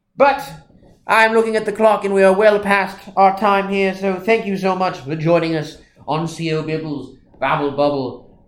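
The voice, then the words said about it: Put-on English accent. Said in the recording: “my horrid English accent”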